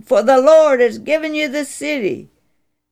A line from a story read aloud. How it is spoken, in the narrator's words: yelled